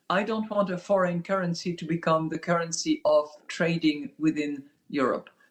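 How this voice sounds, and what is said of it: Bad put-on foreign accent. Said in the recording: “It's such a bad accent. ... Half-assed fucking Vegas off-strip performers doing totally. Zelensky.”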